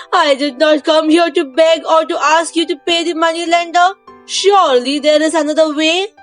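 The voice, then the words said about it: Distressed, pleading voice. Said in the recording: “The scribe said in a distressed voice.”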